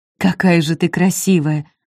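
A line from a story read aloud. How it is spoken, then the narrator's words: Breathy exhale. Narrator (Russian): выдохнул он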